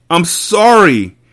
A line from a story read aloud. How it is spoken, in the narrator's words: she screamed